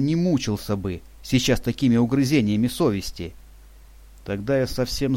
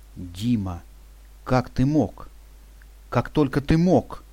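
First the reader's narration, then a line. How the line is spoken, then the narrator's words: Horrified whisper. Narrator (Russian): с ужасом прошептала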